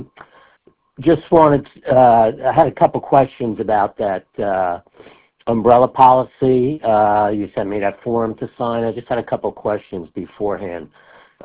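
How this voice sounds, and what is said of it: Sick, strained voice. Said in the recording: “I'm a little bit under the weather. My voice is not so great right now”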